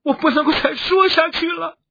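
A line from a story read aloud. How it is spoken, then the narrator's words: Struggling cry. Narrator (Chinese): 他在挣扎，他终于蹦出了一声哭叫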